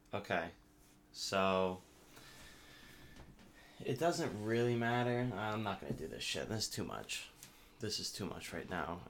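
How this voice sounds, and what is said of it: Slightly slurred tipsy speech. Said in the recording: “the Bacardi is whacking right now ... I'm slurring a little bit.”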